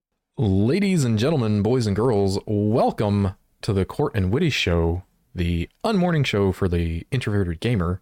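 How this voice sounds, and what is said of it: Announcer-style radio voice. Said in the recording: “You got the radio voice.”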